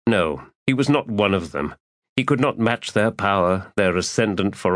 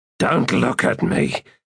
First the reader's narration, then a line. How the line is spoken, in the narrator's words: Tok snarled